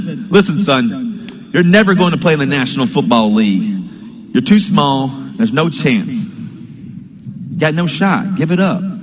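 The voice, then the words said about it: Imitated Southern accent. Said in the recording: “with the Southern accent, apparently ... a faux Southern accent”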